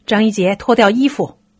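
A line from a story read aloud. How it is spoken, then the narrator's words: Shout. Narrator (Chinese): 不知谁喊了一声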